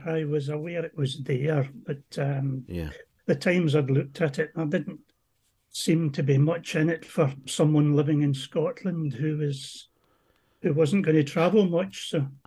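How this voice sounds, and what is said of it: Heavy Scottish accent. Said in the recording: “Oh, you're Scottish. ... I'm Scottish, yes. ... heavy ... accent”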